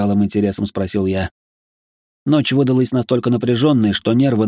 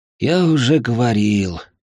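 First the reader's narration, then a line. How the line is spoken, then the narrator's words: Weary sigh. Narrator (Russian): устало вздохнул я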